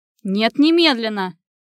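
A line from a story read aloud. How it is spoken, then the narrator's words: Barked into phone. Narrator (Russian): Рявкнул он в трубку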